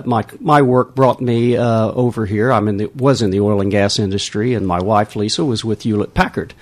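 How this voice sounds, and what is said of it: Texan American accent. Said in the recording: “you can probably tell by our accents we're not from around here ... Originally from Texas.”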